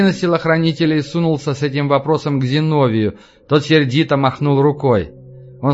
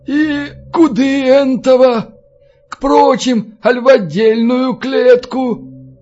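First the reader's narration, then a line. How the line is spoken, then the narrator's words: Wheezing drunken monk. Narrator (Russian): Толстый монах с синим, не иначе от постоянного пьянства, носом просипел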